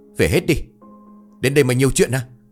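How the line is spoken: Angry loud shout. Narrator (Vietnamese): Ông Đam sa sầm nét mặt rồi quát lớn

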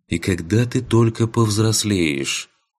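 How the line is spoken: Sighing. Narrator (Russian): вздохнула Ваеса

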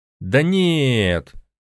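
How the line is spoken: Drawn-out drawl. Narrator (Russian): протянул Макс

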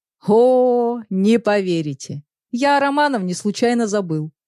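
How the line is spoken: Laughing. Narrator (Russian): рассмеялся Петр Федорович

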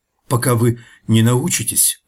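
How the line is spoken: Stammering, embarrassed. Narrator (Russian): начал я, запинаясь и заливаясь краской

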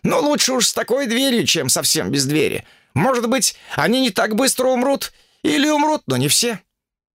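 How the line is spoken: Stout man shouting. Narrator (Russian): Тучный китаец прокричал

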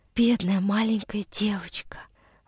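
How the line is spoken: Whisper. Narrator (Russian): прошептал Андрюша

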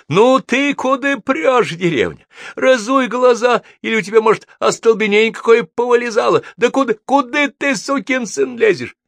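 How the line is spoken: Shouting. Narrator (Russian): Егор кричал

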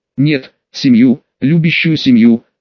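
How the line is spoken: Forced out with difficulty. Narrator (Russian): смог все же выдавить из себя

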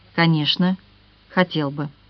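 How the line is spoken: Tender young man. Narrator (Russian): Юноша нежно произнес

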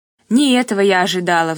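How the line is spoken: Sigh. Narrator (Russian): вздохнула

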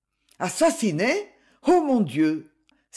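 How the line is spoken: Emotional exclamation. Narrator (French): s'exclama Livia sous le coup de l'émotion

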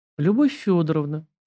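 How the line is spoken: Soft, gentle. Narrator (Russian): мягко заговорила Арина

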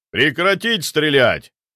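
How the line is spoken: Booming shout, big man. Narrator (Russian): громогласно прокричал смотритель, здоровенный амбал с квадратной челюстью

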